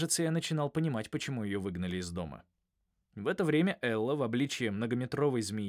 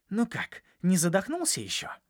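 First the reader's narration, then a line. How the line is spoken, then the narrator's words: Hissed. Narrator (Russian): прошипела Элла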